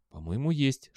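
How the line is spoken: Whispered reply. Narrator (Russian): шепнул в ответ Белли

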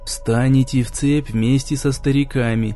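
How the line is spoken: Gloomy low mutter. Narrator (Russian): хмуро бормотал Димка, чтобы не быть услышанным престарелыми вояками

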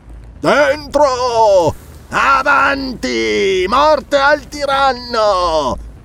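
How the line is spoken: Two voices shouting together. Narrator (Italian): gridarono insieme Ascalante e Rinaldo

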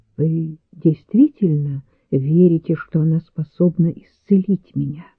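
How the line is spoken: Quiet question. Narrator (Russian): негромко спросил

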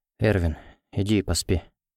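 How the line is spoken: Quiet. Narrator (Russian): тихо сказал он

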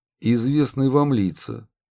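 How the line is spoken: Dry reply. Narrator (Russian): сухо ответил Удалов

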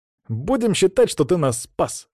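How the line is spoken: Said with a snort. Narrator (Russian): хмыкнул Саня

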